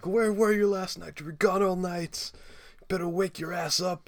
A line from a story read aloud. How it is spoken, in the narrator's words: he's screaming at Porky